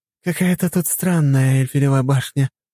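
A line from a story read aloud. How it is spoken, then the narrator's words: Giggling. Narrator (Russian): хихикнула Дункан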